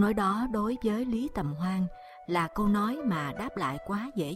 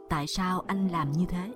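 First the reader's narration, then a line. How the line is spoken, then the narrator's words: Cold voice. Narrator (Vietnamese): Hắn nói bằng một giọng lạnh lùng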